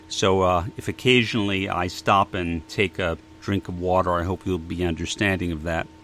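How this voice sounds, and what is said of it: Sick, slightly off-sounding voice. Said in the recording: “my voice sounds a little off, it's because I'm ill, and I'm running a bit of a fever”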